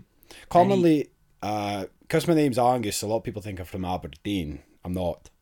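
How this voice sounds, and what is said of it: Broad Scottish accent. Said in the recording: “probably a lot confused from the broad accent”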